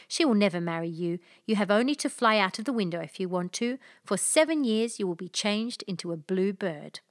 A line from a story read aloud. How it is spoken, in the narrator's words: said Soussio angrily